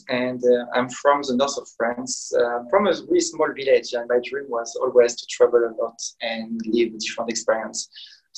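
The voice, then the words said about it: French accent in English. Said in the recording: “I'm French, as you can hear with my accent”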